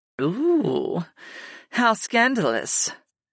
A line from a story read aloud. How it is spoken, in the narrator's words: Sarah purred